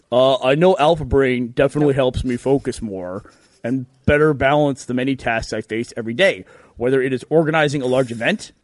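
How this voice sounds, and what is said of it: Imitates another person's voice. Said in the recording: “I do my best Gus voice. ... This is my Gus impression. ... a very poor depiction”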